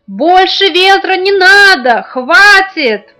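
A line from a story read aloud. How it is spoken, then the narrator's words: Emperor shouting at full voice. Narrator (Russian): Император стал громко во все горло кричать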